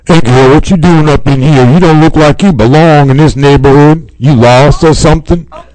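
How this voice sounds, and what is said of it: Gangsta-style street voice. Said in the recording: “talk like your girl gangsta”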